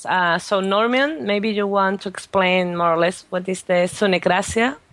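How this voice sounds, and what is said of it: Strong non-native accent. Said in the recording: “my accent is quite strong”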